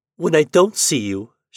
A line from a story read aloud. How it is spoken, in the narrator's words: she exclaimed as simply as a child